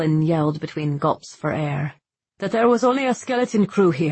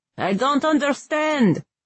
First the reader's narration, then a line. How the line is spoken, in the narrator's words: Merrick shouted over his pounding feet